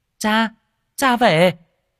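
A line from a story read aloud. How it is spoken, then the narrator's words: Distant child calling. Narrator (Vietnamese): từ xa có tiếng đứa trẻ kêu lên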